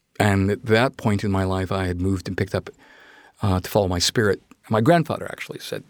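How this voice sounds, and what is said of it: Usual voice. Nothing is said of it.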